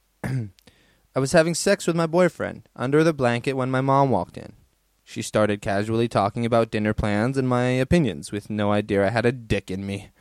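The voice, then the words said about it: Put-on American accent. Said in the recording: “I used to love doing the American accent. I'm pretty sure I was way better than what I just did. Let me try it again on the next one.”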